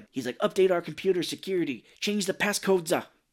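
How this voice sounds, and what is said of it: Put-on New York Chicago accent. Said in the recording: “a weird kind of New York, Chicago accent ... he sometimes sounds like Chicago”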